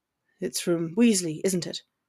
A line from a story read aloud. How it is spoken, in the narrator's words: Draco questioned bitterly